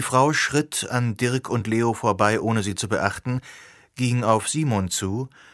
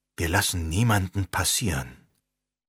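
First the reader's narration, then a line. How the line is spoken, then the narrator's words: Quiet command. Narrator (German): ordnete Leo leise an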